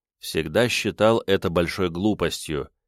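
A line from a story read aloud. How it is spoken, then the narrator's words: Quiet reply. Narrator (Russian): тихо ответил я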